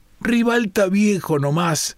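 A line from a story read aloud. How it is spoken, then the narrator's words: Shouted while braking hard. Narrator (Spanish): gritó Stefanelli, frenando violentamente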